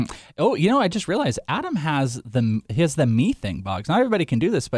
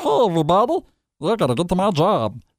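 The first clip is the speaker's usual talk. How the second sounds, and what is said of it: Meatwad cartoon character voice. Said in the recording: “I can do my meat wad. I can talk like this ... weird voice”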